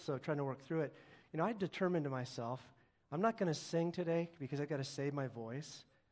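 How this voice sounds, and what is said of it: Voice affected by a cold. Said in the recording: “I have a cold”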